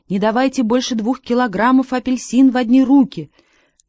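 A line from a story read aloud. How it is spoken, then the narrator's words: Tense crowd shouting. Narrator (Russian): Все покупатели были в страшном напряжении и кричали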